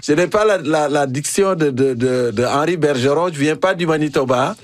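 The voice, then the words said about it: African French accent. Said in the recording (French): “mon accent africain ... C'est encore plus savoureux avec ton accent africain”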